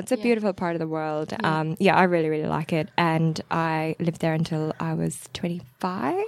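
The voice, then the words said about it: Irish accent mixed with Australian. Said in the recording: “why do you have such a weird accent? ... You've picked up a bit of Aussie. ... I've picked up the Aussie-isms. ... there's like a mix of like American, Canadian in there as well”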